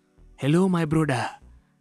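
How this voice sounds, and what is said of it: Exaggerated West African movie accent. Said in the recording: “this weird West African accent”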